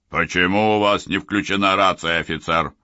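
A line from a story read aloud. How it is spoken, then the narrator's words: Barked. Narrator (Russian): рявкнул Селитто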